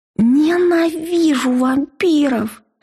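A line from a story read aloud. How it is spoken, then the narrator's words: Moaning. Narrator (Russian): простонала я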